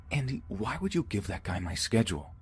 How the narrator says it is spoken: I quietly yelled

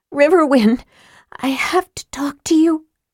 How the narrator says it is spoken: she said urgently

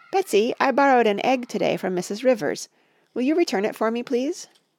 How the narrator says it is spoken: her mother called out

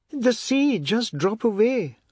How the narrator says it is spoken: Anand cried, lying on his back, covering his face with a crooked arm

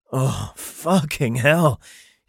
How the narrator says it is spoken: groaned

